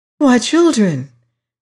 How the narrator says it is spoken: exclaimed Molly

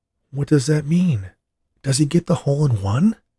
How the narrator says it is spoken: she asked excitedly

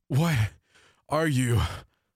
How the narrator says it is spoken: I gasped in between breaths

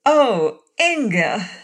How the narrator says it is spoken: exclaimed

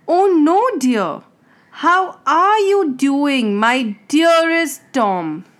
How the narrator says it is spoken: His friend raised his voice and said

